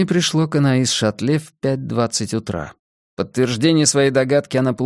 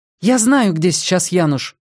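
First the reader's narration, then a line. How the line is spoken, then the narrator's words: Excited voice. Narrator (Russian): возбужденным голосом сообщила она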